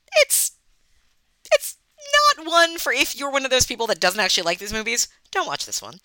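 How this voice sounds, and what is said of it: Long Island accent. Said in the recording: “my Melissa Joan Hart-ish Long Island accent”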